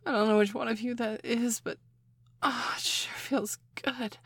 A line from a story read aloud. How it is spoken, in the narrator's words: I moaned